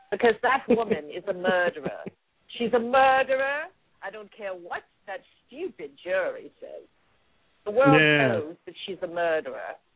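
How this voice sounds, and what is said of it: Put-on Cajun British accent. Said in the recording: “your Cajun British accent is excellent”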